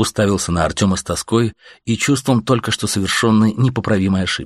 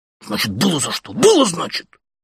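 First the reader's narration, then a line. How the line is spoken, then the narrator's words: Whispered shout. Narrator (Russian): шепотом же крикнул он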